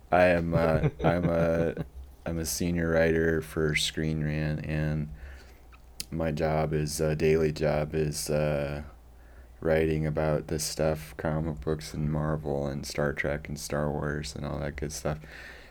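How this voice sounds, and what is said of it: Tired-sounding voice. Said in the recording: “apologize at the outset here for my voice ... I sound very tired. It's because I'm very tired.”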